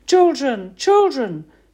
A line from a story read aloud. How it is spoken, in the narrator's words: screamed Mama, searching for us desperately